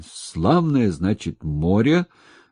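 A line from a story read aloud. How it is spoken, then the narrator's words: Hoarse wheeze. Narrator (Russian): просипел он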